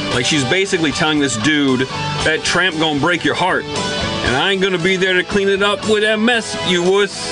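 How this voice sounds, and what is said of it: Character voice in Seattle accent. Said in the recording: “Trying to do a character voice ... What was that accent? ... It was a Seattle accent.”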